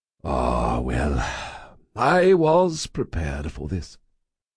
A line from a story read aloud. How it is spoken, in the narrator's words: he said with a sigh